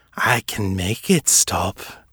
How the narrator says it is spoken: Fisher cooed

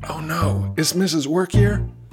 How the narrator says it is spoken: The other workers gasp, saying

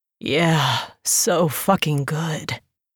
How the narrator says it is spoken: he moaned

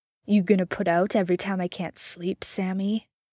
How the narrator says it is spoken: Dean asks archly, two parts lewd and one part sneering taunt

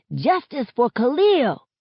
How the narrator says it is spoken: Some kids around my age stand on top of a car as they shout

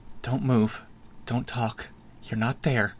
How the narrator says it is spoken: she murmured, barely audible

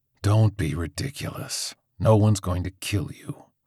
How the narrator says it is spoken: Coach Jernigan sighed

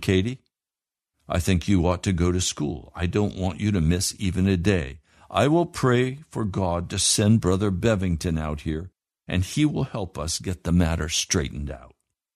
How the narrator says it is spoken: hurting for her daughter, said firmly

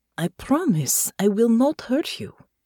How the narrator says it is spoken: she said gently

